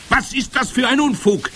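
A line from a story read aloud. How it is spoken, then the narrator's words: Witch calling out. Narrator (German): rief die Hoch- und Großmeisterhexe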